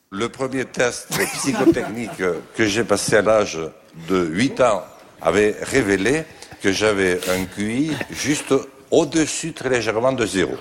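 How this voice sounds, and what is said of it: Strong southwestern French regional accent. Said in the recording (French): “son bel accent bigourdant... il parlait comme ça”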